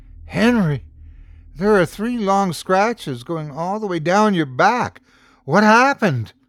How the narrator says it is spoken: He gasped

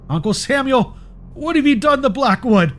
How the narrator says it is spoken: shouted, my voice cracking with fear

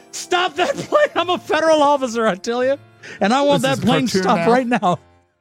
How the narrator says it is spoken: he's yelling

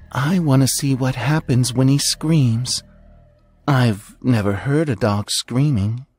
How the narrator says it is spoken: She grinning wider, and whispered

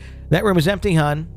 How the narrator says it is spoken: the nurse called out

